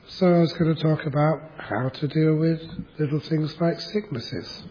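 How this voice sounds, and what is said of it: Husky, congested voice. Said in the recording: “as you can hear today, I have a sexy voice. Maybe. A little bit of a cold.”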